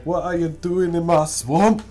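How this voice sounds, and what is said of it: Bad put-on Scottish accent. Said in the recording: “That's a very bad Scottish accent.”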